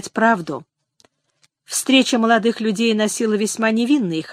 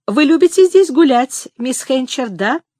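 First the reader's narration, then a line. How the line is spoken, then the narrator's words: Cooing voice. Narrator (Russian): Это было сказано каким-то воркующим голосом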